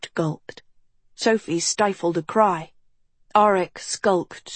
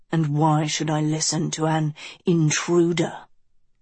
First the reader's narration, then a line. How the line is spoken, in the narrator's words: Auric growled